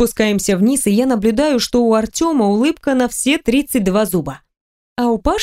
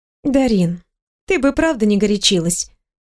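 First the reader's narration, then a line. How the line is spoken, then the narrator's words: Calm speech. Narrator (Russian): произносит спокойно Миланская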